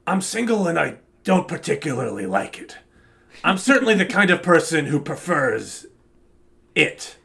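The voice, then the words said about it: Bad imitation of another person's voice. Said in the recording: “my bad Al Pacino impression”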